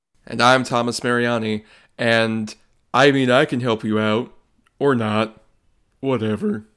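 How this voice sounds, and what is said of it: Imitates another person's voice. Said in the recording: “That was my impression of Academy Award nominee Ed Harris ... that's pretty good ... a perfect head-on imitation”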